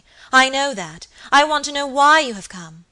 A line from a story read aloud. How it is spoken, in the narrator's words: cried Lady Audley impatiently